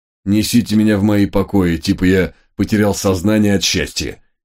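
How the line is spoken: Commanding through gritted teeth. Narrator (Russian): сквозь зубы приказал я

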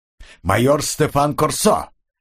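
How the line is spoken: Defiant bark. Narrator (Russian): рявкнул коп, не давая себя запугать

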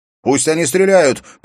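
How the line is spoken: Shouted. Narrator (Russian): прокричал он Ивенлин

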